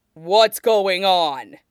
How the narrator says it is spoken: Nie Mingtui barks

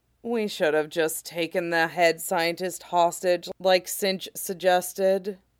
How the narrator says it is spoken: Shatter sighed, giving up her attempts

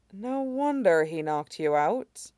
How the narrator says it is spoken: Sharong muttered

